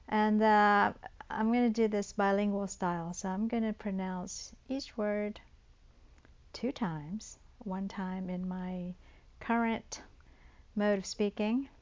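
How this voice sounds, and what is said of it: American Southern accent. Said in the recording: “I'm from the South, the American South. And I'll let you figure out from the accent.”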